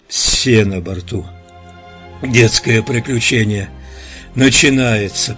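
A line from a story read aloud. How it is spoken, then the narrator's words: Hoarse rasp. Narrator (Russian): прохрипел он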